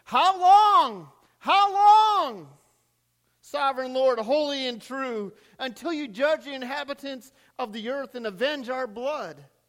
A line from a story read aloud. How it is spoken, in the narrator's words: They called out in a loud voice